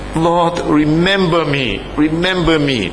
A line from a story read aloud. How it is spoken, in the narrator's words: He cried out to the Lord